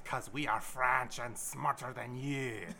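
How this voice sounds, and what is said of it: Put-on French accent. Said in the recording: “It's a great French accent.”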